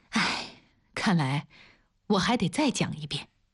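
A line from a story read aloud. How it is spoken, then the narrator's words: Sighing, muttering to oneself. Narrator (Chinese): 王丽叹了口气，自言自语道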